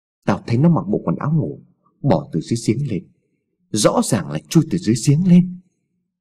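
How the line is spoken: Trembling voice. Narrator (Vietnamese): Hùng nói bằng giọng run rẩy

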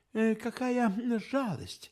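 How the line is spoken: Sighing. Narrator (Russian): вздохнул я

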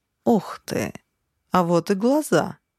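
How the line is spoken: Joyful discovery. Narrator (Russian): радостно поделился своим открытием Нарп

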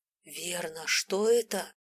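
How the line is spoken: Almost angry hiss. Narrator (Russian): Прошипел почти зло

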